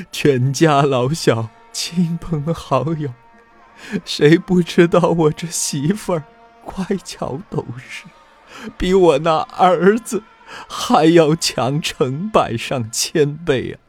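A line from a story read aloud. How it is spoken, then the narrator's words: Weeping bitterly. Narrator (Chinese): 贾珍呢，更是哭得跟个泪人似的，说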